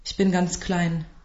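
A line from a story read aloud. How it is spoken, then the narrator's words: Said quietly. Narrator (German): sagte leise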